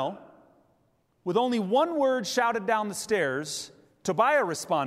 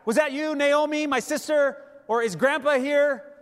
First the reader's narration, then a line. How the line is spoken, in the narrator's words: didn't shout back